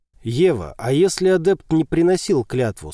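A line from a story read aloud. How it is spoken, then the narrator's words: Plain. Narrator (Russian): спросил Сима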